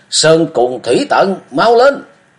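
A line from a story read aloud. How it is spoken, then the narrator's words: Thrilled exclamation. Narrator (Vietnamese): Mừng đến gai người, chàng kêu lên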